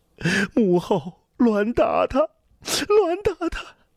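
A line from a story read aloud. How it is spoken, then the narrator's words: Sobbing, broken speech. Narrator (Chinese): 刘言早已哭成个泪人，话说得断断续续的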